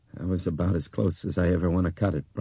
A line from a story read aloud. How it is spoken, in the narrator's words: Brian said unsteadily